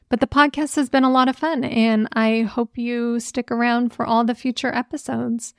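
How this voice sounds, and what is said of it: Raspy, hoarse voice. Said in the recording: “my voice is a little more raspier... it always constantly sounds like I'm a smoker”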